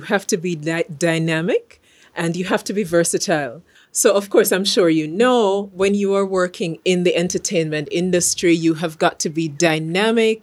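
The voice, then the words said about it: Jamaican accent. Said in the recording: “I'm from Jamaica. For those who haven't picked the accent up”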